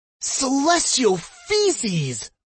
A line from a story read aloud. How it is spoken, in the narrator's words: I exclaimed, half in disgust and half in anticipation